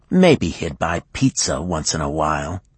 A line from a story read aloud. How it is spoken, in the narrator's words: she said bitterly